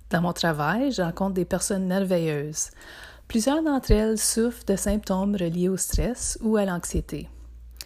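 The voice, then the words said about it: Northern Ontario French accent. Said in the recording (French): “Oui, j'ai un accent. ... je viens du nord de l'Ontario, plus spécifiquement du Témiscamingue.”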